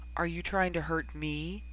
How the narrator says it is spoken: He murmured back

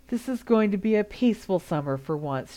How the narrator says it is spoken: sighed

